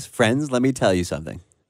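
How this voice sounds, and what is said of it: Jim Nantz impression. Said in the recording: “in my Jim Nantz voice”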